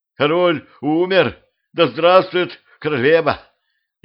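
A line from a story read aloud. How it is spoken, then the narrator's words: Frightened crowd yelling. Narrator (Russian): Испуганно заорала в ответ толпа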